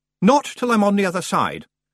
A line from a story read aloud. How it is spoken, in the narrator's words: Roland said firmly